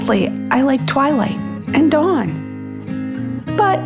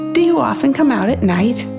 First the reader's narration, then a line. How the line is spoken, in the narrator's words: Morgan giggled